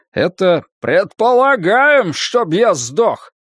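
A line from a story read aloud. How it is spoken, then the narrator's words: Shout. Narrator (Russian): прокричал Тед Фрэмптон из третьего ряда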